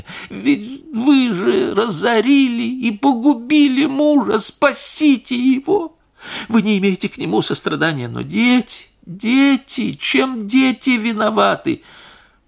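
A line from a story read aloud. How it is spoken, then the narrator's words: Sobbing plea. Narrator (Russian): сама зарыдала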